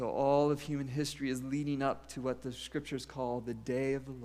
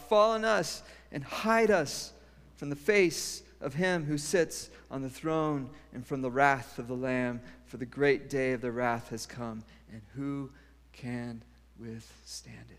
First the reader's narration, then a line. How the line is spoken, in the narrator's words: They called out to the mountains and the rocks